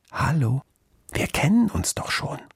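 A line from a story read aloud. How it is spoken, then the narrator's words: Conspiratorial whisper. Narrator (German): flüsterte das Menschenkind verschwörerisch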